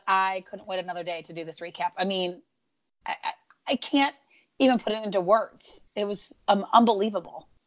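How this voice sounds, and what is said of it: Strained, not fully recovered voice. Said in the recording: “as you can tell, my voice is still not 100% there”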